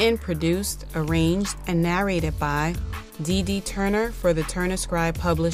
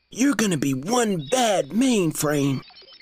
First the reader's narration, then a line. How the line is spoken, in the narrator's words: Minga expressed excitedly